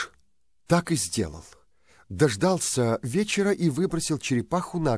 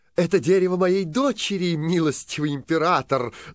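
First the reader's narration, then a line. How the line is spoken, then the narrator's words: Woman's shout. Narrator (Russian): закричала мачеха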